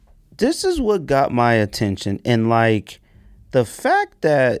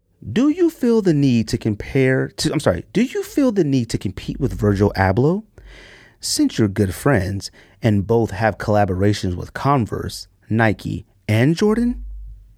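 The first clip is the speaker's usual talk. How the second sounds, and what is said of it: Formal professional reading voice. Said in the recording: “in my professional read voice”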